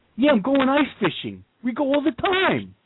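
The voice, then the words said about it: Put-on Queens accent. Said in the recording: “he's doing a Queens accent for a guy from Minnesota”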